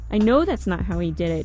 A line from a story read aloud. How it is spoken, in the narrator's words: Danielle said